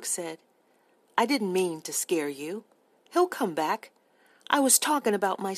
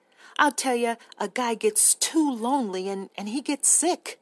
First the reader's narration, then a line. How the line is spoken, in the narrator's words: he cried